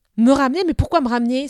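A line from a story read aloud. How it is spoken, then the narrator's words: Exclamation. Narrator (French): s'exclama Eneda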